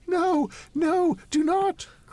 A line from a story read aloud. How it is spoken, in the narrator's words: cried the lady